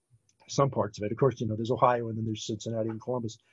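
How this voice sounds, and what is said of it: Mild, non-regional American accent, not nasal. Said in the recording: “it's not a strong accent. It's not regionally specific in any way... the Midwesterners have a more nasal sound to them than you do”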